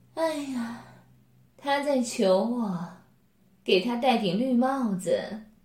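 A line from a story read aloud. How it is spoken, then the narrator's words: Smiling, meaningful. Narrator (Chinese): 柳丽艳笑眼中带有意味深长地说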